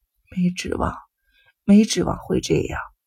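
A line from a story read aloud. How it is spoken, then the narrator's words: Mumbling in sleep. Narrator (Chinese): 母亲旁边的病人正在喃喃地说着梦话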